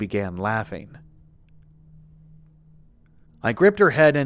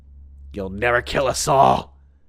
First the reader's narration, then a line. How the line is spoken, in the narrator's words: she spat